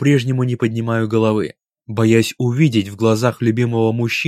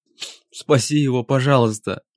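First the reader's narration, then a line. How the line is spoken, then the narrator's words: Sobbing, gasping mumble. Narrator (Russian): бормочу сквозь всхлипывание, задыхаясь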